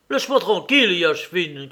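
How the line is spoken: Angry shout. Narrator (French): cria-t-il avec colère

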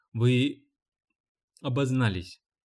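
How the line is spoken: Calm. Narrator (Russian): спокойно сказал Гарп

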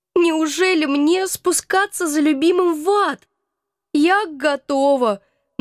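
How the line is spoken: Naive sob. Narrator (Russian): наивно всхлипнула я

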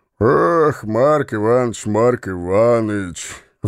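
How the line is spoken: Sighing. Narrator (Russian): вздохнул Становой

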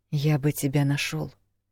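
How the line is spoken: Quiet reply. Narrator (Russian): тихо ответил он

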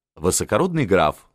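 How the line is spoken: Laughing. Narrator (Russian): смеялся Либман

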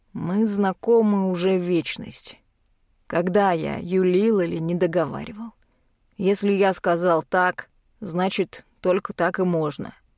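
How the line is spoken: Weary exhaled words. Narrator (Russian): устало выдыхает машинист

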